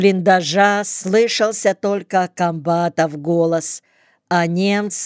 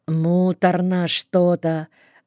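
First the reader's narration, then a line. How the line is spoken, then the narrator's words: Sighing. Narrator (Russian): вздохнул Сашка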